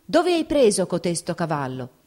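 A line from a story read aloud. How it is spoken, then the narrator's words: Shouted into ear. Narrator (Italian): Udì a malapena il generale gridargli nell'orecchio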